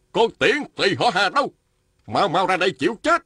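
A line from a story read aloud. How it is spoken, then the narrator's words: Man shouting. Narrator (Vietnamese): Một nam nhân quát lên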